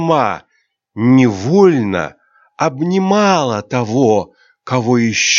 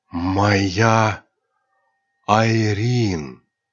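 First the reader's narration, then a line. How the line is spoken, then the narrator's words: Whisper. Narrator (Russian): прошептал темный бог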